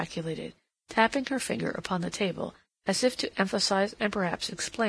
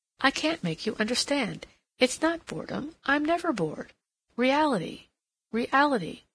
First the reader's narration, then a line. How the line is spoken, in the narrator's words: she exclaimed, as if the subject chafed her